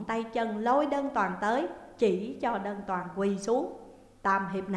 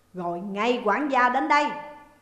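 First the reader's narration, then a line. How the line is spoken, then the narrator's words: Loud barked command. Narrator (Vietnamese): Bàn Tam Hiệp lớn tiếng quát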